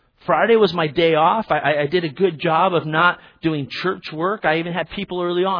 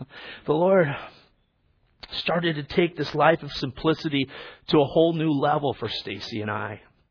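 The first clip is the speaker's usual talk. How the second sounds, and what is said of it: Emotional, choked-up voice. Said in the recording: “I don't know why I'm getting emotional.”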